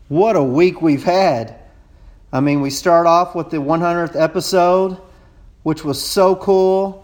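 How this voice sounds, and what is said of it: Texas drawl. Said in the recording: “my Texas accent ... my long-drawn accent”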